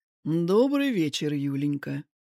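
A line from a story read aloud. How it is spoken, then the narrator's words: Overly soft. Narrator (Russian): сказал Кулясов мягко, слишком мягко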